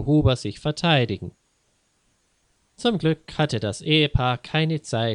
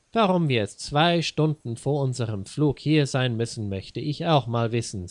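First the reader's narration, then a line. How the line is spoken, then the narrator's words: Plain. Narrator (German): sagte Frau Huber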